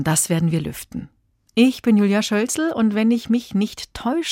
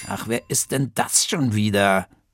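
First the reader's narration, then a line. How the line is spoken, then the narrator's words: Grumble. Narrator (German): brummte Bertha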